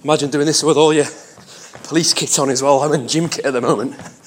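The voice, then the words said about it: Slightly out of breath. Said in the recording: “A bit out of breath.”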